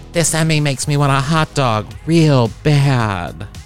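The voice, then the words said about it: Imitates another person's voice. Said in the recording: “Jennifer Coolidge impersonation”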